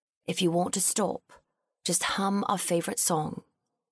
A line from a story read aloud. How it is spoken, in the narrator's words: he whispered